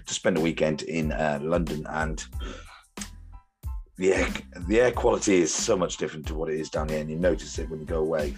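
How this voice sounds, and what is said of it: Croaky, hoarse voice. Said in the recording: “You'll have to excuse my voice. ... So I'm a bit croaky”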